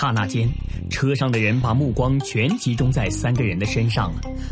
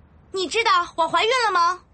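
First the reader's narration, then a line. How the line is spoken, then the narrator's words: Suddenly shrill. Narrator (Chinese): 布丁的声音突然就提高了八度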